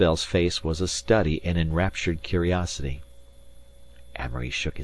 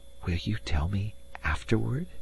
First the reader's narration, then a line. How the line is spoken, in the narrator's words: she half-whispered